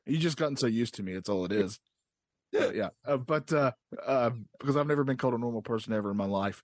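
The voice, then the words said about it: Noticeable accent, once thicker. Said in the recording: “my accent is real ... your accent isn't laid on so thick as it once was”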